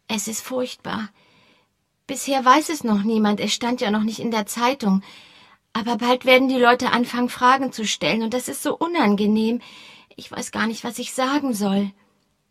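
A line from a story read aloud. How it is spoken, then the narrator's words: Lowered voice. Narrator (German): sagte sie mit gesenkter Stimme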